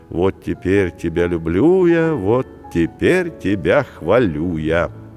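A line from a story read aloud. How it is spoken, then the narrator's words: Affectionate, tender. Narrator (Russian): говорил Вячеслав Миколаевич, а Владимир Рудольфович ласково приговаривал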